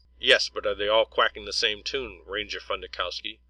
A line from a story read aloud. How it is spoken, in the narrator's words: Leo said gravely